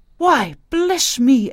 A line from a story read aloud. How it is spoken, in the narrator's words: exclaimed old Mrs